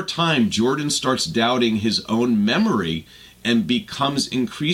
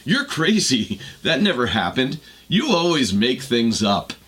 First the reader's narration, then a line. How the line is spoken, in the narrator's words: When confronted, Alex laughs